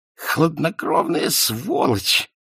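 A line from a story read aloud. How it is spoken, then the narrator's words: Hoarse wheeze. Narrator (Russian): прохрипел он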